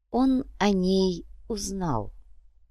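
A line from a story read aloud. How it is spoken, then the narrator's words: Slow. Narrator (Russian): медленно произнес Сантьяго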